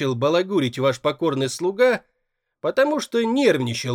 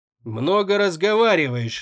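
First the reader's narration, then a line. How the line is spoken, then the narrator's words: Grumbled. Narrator (Russian): буркнул тот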